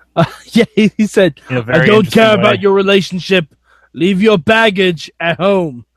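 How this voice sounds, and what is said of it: Imitates another person's voice. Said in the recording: “That was my impersonation.”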